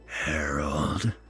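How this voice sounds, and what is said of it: Low voice. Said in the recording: “in a low voice”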